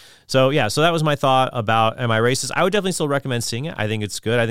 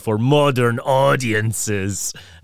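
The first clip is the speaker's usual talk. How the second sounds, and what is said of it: Poor put-on Scottish accent. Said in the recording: “That's a terrible Scottish accent, but I'm doing the best that I can here.”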